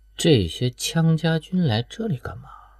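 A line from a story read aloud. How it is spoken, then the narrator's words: Muttering. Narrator (Chinese): 环少航歪着脑袋嘀咕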